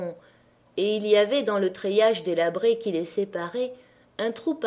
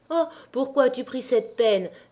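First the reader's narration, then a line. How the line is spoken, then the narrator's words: Exclaiming. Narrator (French): s'écria la Pierronne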